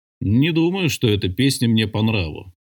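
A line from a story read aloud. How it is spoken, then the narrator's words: Grumbling. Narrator (Russian): пробурчал Тревельян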